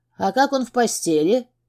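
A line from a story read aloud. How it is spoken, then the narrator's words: Giggle. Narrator (Russian): хихикнула она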